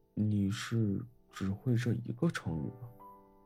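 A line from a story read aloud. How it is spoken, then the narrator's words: Murmuring. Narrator (Chinese): 副将喃喃道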